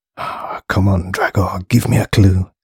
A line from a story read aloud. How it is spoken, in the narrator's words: he muttered quietly to himself